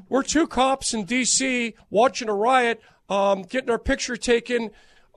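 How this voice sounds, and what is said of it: Put-on propane salesman voice. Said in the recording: “Every time now you do your voice, I feel like you're about to try to sell me a tank of propane.”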